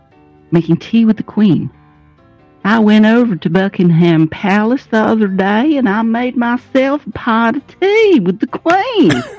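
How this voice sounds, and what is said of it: Put-on Southern Texas accent. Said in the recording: “I want to hear ... talk with a Southern Texas accent ... let me do it. I'm going to hit you with my best shot.”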